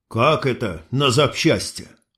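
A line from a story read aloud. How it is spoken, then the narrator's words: Strained forced words. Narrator (Russian): выдавил я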